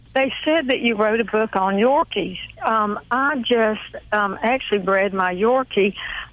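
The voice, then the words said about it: Southern US Georgia accent. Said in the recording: “I love that southern accent ... that's the Georgia accent you have there”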